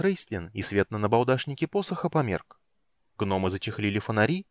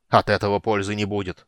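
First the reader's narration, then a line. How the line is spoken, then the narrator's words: Growled. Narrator (Russian): прорычал Флинт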